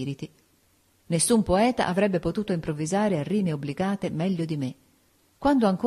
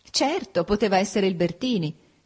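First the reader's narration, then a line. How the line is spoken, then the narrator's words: Laughing. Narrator (Italian): disse Ada ridendo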